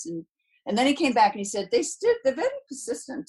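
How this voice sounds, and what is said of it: Bad put-on English accent. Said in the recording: “this is the worst English accent I've ever heard.”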